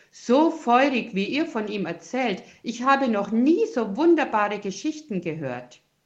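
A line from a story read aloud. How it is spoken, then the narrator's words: Another voice calling out. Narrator (German): ruft ein anderer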